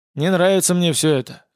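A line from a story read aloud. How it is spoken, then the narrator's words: Grumbling bounty hunter. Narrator (Russian): заворчал охотник за головами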